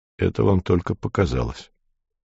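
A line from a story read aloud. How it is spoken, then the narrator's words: Cold. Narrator (Russian): холодно сказал я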